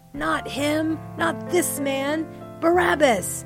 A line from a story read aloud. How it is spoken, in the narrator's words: they all shouted back again